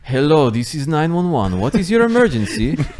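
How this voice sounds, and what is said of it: Put-on Polish accent. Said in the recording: “in a Polish accent? ... I called the Russians.”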